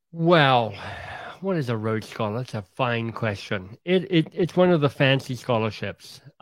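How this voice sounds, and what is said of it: Mixed English and Australian accent. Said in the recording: “a kind of slightly English, slightly Australian accent”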